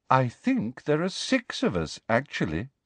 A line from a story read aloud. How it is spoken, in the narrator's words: said Luna calmly